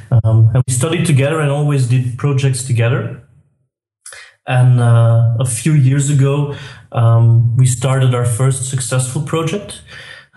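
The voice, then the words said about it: Belgian accent in English. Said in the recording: “I'm from Belgium, as you might hear from my accent.”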